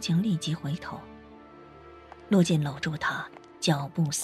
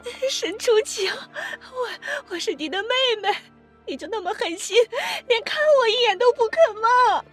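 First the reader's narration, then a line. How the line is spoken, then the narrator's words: Desperate, hysterical. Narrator (Chinese): 沈卫婷绝望的歇斯底里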